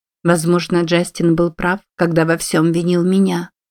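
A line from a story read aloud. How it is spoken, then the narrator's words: Plain. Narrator (Russian): сказала Мадлен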